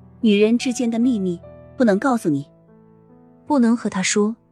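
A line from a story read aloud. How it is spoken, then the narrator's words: Quiet, smiling. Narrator (Chinese): 苏浅…笑了笑，低声道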